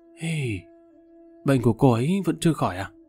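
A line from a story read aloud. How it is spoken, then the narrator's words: Sighing. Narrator (Vietnamese): Lục Tiệm thở dài nói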